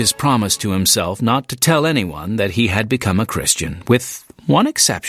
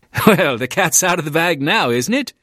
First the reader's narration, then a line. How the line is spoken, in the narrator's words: Kinney laughed